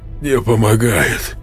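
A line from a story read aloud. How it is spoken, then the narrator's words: Strained, forced out. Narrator (Russian): выдавил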